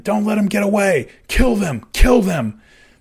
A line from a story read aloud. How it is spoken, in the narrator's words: Callie screamed at his man